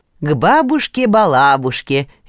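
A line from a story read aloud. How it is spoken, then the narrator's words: Father, cheerful. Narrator (Russian): весело подхватил папа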